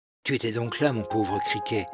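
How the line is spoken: Low voice. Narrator (French): dit Michel à voix basse

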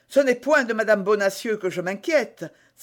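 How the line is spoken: Exclaiming. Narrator (French): s'écria d'Artagnan

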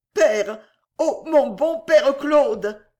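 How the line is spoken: Stammered in terrified whisper. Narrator (French): balbutia-t-elle dans un murmure d'épouvante

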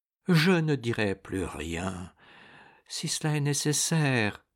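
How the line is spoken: Dejected murmur. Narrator (French): murmura-t-il avec accablement

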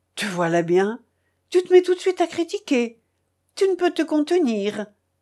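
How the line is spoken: Distressed cry. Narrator (French): s'écria-t-il affligé

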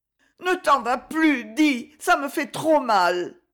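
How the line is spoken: Sobbing gasping plea. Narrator (French): avec l'aspiration sanglotante du noyé qui boit l'air et la vie

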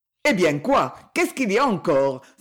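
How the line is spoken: Exclaimed. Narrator (French): s'écria Félix Prenel

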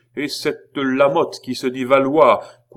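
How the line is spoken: Loud voice. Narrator (French): continua le roi d'une voix forte

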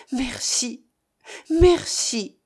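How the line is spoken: Murmuring. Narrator (French): murmura-t-il

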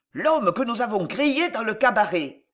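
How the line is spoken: Exclamation. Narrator (French): s'écria l'un

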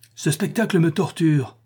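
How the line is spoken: Exclaiming. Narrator (French): s'écria Eudoxia

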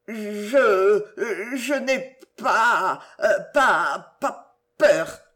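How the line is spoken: Stammered. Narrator (French): bégaya-t-il

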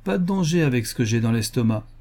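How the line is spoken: Grumbling. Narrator (French): grogna-t-il

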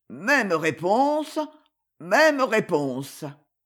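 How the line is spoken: Thick, slurred repetition. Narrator (French): Il répéta, d'une voix redevenue pâteuse

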